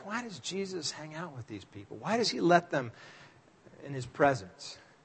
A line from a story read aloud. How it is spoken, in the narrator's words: religious types who were kind of muttering under their breath